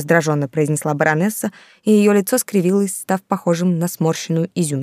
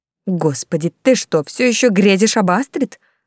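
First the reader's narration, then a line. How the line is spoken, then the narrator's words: Spiteful hiss. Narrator (Russian): злобно прошипела Тильда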